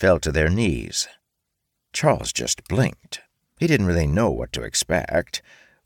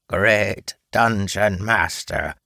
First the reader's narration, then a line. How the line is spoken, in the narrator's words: their apparent leader's voice reminded Charles of a croaking frog